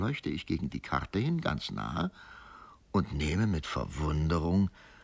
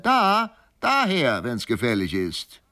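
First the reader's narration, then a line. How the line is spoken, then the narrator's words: Calling out again. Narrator (German): es rief wieder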